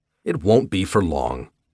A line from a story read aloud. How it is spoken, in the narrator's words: I said